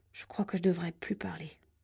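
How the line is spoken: Murmur. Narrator (French): murmura-t-il

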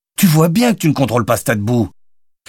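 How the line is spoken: Shout. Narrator (French): cria Jonathan

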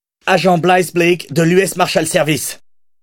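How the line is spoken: Shouted. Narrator (French): cria-t-elle

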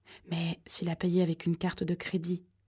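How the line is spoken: Murmured. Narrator (French): murmura Kimberly

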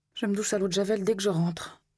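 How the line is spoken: Muttering through teeth. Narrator (French): grommela Didi entre ses dents

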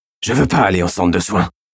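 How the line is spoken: Hoarse young voice. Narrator (French): dit le jeune d'une voix rauque

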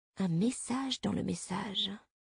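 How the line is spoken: Murmured. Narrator (French): murmura le capitaine O

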